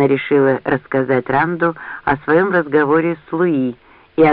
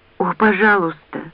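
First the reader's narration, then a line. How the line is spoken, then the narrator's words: Trembling voice. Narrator (Russian): дрожащим голосом проговорила она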